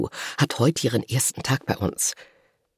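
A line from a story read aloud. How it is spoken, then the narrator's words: Murmured aside. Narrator (German): raunt zu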